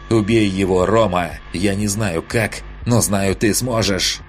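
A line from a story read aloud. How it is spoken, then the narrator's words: Loud hate-filled shout. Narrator (Russian): Звенящим от ненависти голосом громко выкрикнула она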